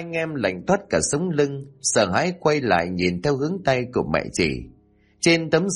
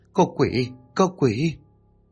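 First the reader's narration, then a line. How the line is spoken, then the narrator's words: Trembling, tearful voice. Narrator (Vietnamese): run rẩy giọng mếu máo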